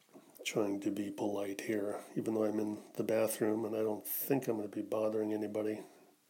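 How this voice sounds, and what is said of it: Quiet, low-energy speaking voice. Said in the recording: “I'm trying not to speak too loudly ... my energy is kind of low”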